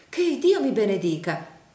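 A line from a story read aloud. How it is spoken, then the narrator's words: Hurried exclamation. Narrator (Italian): esclamò accomodandosi in fretta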